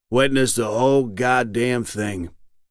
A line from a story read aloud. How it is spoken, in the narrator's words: it said